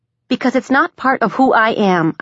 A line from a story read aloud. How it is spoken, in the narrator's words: I snapped back